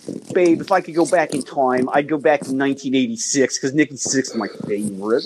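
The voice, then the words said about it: Thick Baltimore accent impression. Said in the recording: “she would do this impression of her brother-in-law ... Like this like thick Baltimore accent.”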